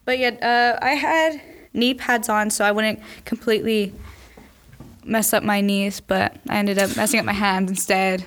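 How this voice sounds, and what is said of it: Hoarse voice, partly lost. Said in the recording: “I lost my voice because of all the screaming, and so that's why I sound like this right now”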